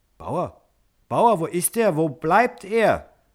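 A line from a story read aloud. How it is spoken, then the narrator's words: Repeated frantic calling. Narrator (German): rief er wohl 100-mal hintereinander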